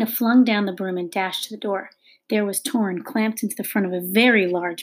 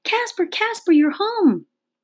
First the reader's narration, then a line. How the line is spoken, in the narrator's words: a shriek from inside the house voice screaming